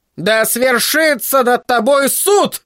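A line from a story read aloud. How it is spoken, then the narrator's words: Furious shout. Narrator (Russian): в ярости кричала Маргарет Уайт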